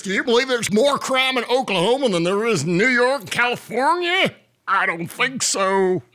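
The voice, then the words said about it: Imitates another person's voice. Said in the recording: “I sound like this ... my impromptu Kevin Stitt impression”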